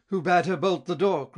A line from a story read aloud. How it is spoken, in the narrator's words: cried Friedrich